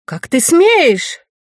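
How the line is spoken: Nearly shouting. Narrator (Russian): она почти кричала

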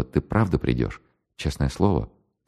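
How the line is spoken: Soft shy question. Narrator (Russian): тихонько так спросила

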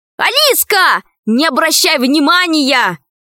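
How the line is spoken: Shouted after someone. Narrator (Russian): крикнул вслед Пашка

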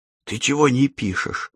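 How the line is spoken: Surprised whisper. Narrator (Russian): удивленно зашептала Лена

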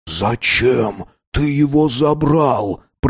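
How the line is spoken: Whisper. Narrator (Russian): прошептал Дэйн

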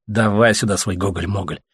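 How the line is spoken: Muttering. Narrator (Russian): пробурчал Леха

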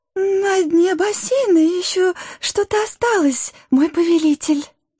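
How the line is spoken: Fawning squeak. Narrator (Russian): Подхалимски пискнула Гага

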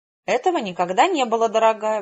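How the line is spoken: Exclamation. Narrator (Russian): воскликнула она

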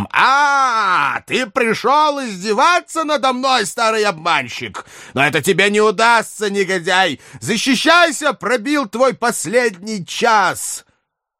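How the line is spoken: Furious shout. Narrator (Russian): закричал разъяренным голосом

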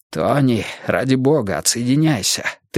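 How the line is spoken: Mysterious demanding voice. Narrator (Russian): требовал он таинственным голосом

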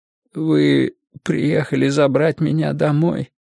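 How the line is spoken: Strained choked voice. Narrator (Russian): сдавленным голосом спросил у Мэтью

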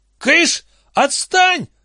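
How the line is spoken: Angry shouting. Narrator (Russian): заорал Лестер на тележку

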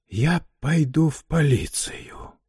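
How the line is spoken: Whisper. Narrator (Russian): шептал он

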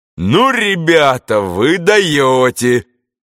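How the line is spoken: Loud booming voice. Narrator (Russian): шумел своим зычным голосом туземец

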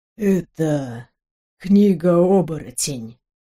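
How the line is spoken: Very tired. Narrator (Russian): сказал он как-то очень устало

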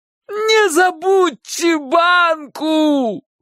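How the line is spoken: Shout in dying voice. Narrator (Russian): крикнул Чик предсмертным голосом

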